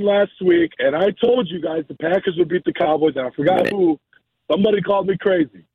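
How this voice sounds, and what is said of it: Voice nearly lost, hoarse. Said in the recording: “I kind of lost my voice. I was at the game yesterday.”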